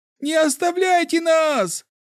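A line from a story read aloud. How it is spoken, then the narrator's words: Shouted. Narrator (Russian): закричал еще один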